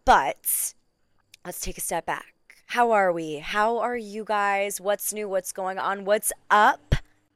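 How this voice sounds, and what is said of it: Slightly raspy, worn-out voice. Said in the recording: “my voice is a little sensitive today. I was doing a lot of yelling and screaming and cheering ... She's a little bit raspy ... my voice is worn out”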